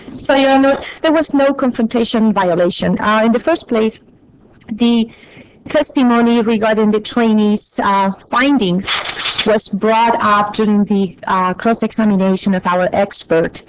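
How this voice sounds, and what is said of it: Noticeable non-native accent. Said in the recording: “I apologize for my accent. It always comes up when I'm a little anxious.”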